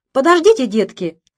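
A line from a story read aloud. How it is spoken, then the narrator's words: Condescendingly affectionate tone. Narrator (Russian): снисходительно ласковым тоном обращается она к своим младшим братьям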